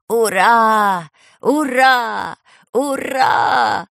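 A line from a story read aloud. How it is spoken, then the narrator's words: Joyful shout. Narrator (Russian): радостно закричал Леший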